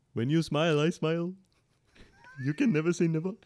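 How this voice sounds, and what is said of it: Put-on Indian accent. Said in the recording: “That wasn't supposed to be Indian ... But I want a full accent now ... You nailed it. You nailed it. That's perfect.”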